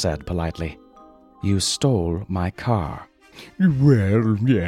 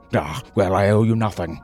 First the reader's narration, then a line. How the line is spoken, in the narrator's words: Zephyr shouted